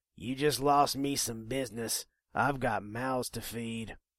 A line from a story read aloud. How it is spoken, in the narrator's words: the shopkeeper growled